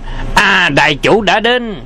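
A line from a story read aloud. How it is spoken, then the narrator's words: Crowd cheering. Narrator (Vietnamese): chúng nhân reo lên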